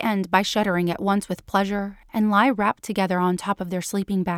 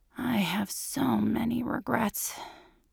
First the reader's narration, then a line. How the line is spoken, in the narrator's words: says with a sigh